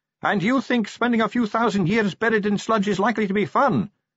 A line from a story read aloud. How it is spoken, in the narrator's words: shouted Sally